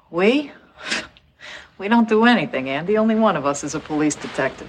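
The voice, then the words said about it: Effortful Boston accent. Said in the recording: “trying really hard at a Boston accent”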